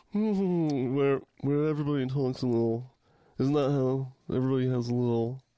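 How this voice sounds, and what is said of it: Put-on upper-crust Harvard accent. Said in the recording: “I think you've nailed the Cambridge... A little upper crust... their chin doesn't move when they talk”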